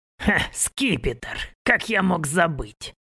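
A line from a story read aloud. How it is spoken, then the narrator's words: Laughing. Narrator (Russian): хохотнул он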